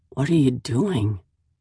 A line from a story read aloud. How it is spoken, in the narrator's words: I croak, then groan again